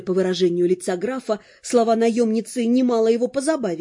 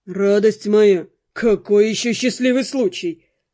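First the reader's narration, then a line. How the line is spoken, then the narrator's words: Snort. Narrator (Russian): фыркнул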